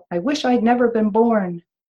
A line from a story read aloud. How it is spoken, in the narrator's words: She'd yell